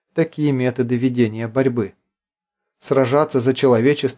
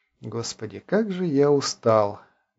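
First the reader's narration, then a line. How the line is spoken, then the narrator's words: Muffled, to himself. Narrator (Russian): глухо сказал он самому себе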